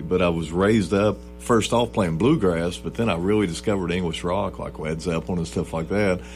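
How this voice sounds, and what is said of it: Rural Southern American accent. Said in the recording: “I've got a hick accent”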